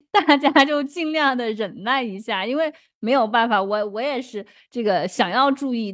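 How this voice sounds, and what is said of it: Heavy southern Chinese accent. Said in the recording (Chinese): “我也知道我口音很重，因为南方人嘛”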